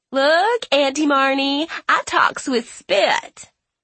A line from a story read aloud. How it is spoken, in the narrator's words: Natalie crows in a baby voice